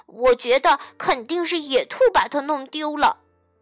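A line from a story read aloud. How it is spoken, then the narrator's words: Squirrel, angry shout. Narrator (Chinese): 松鼠生气地喊道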